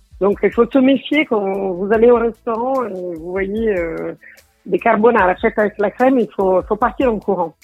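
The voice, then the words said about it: Noticeable foreign accent. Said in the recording (French): “Avec votre accent”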